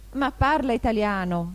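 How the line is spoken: Young eagle exclaiming. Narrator (Italian): esclamò l'aquilotto

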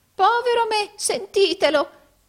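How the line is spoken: Exclaimed with forced laughter. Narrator (Italian): esclamò Arturo fingendo di ridere

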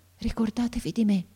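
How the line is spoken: Boy's breath-like murmur. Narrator (Italian): mormorò ancora il ragazzo con una voce che pareva un soffio

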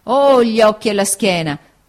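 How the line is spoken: Sad exclamation. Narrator (Italian): esclamò tristamente

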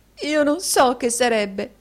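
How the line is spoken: Sobbing. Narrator (Italian): singhiozzò la signorina Squeers

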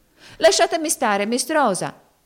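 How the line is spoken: Shouted. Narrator (Italian): gridò Topsy

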